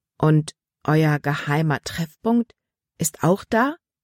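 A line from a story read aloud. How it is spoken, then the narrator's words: Plain question. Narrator (German): fragte Libby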